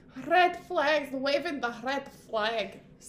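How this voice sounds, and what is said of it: Put-on accent. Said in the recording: “I said red flags in an accent.”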